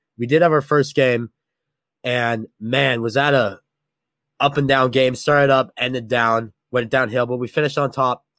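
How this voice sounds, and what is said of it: Sick, off-sounding voice. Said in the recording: “extremely sick ... I'm pretty sick. My voice sounds a bit off”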